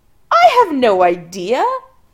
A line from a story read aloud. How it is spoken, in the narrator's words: Adam laughs a little hysterically